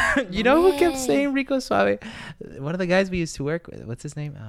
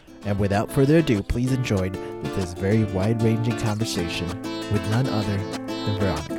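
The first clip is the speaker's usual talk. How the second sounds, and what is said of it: Smooth debonair radio announcer voice. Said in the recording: “A good radio voice. ... You do have a good radio voice. Like, it's very, like, hey. Like, very debonair, very Rico Suave”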